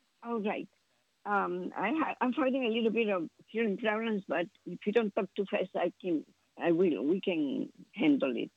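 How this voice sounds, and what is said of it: Strong non-native English accent. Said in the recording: “I have my accent ... It's not going to be perfect English”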